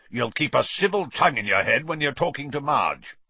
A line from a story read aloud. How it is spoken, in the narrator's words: growled Uncle Vernon